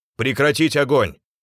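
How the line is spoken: Shouted. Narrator (Russian): прокричал Кольцов

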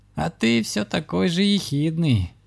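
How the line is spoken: Sincere laughter. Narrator (Russian): искренне рассмеялась ведьма

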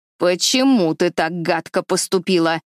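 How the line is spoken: Sharp old woman. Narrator (Russian): резко спросила старая бабушка

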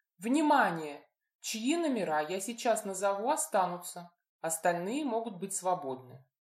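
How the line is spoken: Matter-of-fact announcement. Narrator (Russian): будничным тоном сообщила блондинка

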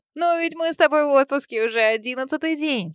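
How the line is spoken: Laughing. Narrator (Russian): смеялась

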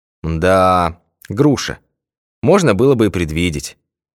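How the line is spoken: Sighing. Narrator (Russian): вздохнул Башмаков

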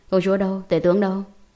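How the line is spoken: Cold question. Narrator (Vietnamese): lạnh lùng hỏi

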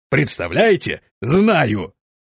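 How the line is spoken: Speaking through laughter. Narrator (Russian): сквозь смех, произнес он

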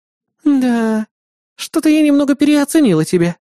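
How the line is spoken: Sighing. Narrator (Russian): вздохнула Кри

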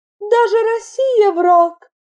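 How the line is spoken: Sad remark. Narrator (Russian): печально отметила Айлин

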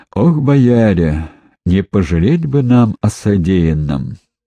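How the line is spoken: Heavy sigh. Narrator (Russian): тяжело вздохнул боярин Ивар

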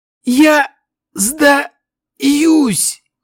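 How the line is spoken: Elf's hoarse wheeze. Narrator (Russian): прохрипел эльф

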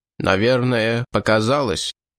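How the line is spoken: Tired. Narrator (Russian): граф устало сказал

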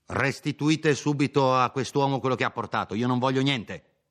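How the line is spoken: Doctor shouting. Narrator (Italian): Il dottore, sempre gridando, le disse

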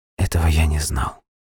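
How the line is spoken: Whisper. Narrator (Russian): прошептал Франклин

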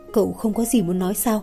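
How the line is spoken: Quiet question. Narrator (Vietnamese): Thẩm Lệ nhỏ giọng hỏi

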